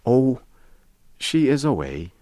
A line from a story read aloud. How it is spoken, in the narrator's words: the man sighed